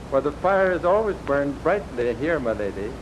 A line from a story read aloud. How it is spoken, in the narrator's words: replied the child happily